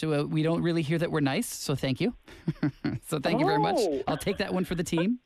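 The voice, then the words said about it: American English accent. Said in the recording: “I'm from the United States. ... Did my accent give it away? ... you sound really, nice.”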